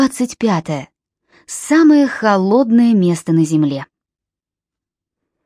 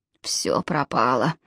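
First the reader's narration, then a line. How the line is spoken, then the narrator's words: Muttered. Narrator (Russian): пробормотал Джалабин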